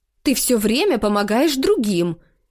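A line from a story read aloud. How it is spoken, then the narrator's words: Indignant. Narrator (Russian): говорит мама возмущенным тоном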